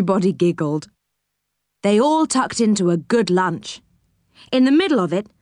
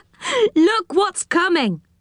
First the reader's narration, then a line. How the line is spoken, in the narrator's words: said Joe with a laugh